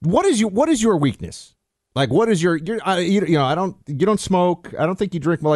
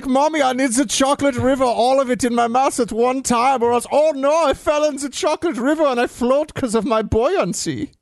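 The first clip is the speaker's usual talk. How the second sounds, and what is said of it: German kid accent imitating Augustus Gloop. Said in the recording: “Augustus Gloop, I think, was that German kid's name ... Yes, this is a very good accent.”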